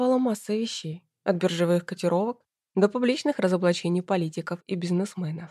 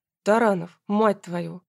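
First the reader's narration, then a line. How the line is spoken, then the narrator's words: Menacing voice. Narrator (Russian): голос Ивана звучал грозно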